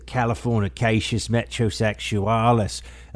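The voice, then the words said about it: Put-on Australian nature-show accent. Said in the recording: “That's my version of an Australian accent from a nature show.”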